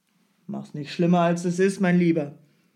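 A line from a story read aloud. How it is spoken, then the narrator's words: Calling out. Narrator (German): rief Strogoff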